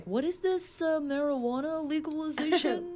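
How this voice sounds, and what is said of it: Imitates another person's voice. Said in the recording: “that's my impression”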